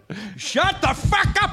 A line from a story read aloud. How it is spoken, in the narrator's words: I yelled